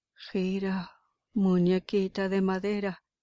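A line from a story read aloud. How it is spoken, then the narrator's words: Terrible shouting voice. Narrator (Spanish): seguía gritando con voz terrible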